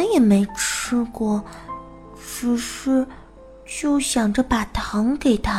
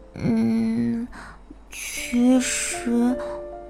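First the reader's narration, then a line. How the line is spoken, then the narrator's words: Mumbling. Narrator (Chinese): 小白兔喃喃地说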